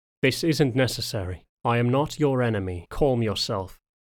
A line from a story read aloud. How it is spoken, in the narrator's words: he spoke evenly